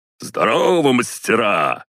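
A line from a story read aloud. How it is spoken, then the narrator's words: Loud bark. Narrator (Russian): гаркнул Борзята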